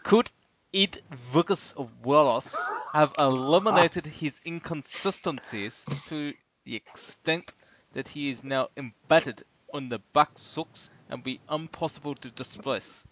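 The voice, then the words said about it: Put-on comic foreign accent. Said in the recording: “excuse my accent ... It sounded like you were Colonel Clink off Hogan's Heroes.”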